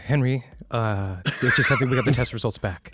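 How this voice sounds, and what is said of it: Mock-serious grave voice. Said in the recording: “This is my serious voice.”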